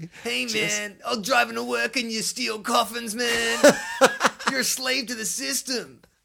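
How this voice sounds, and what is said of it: Laid-back stoner voice. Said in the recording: “I sounded like a massive fucking stoner”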